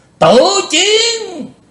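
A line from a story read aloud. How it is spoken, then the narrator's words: Roaring like a demon. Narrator (Vietnamese): Lý Vân Hạo gầm to như quỷ giống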